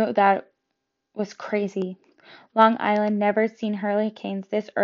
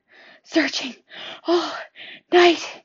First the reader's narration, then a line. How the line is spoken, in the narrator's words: he gasped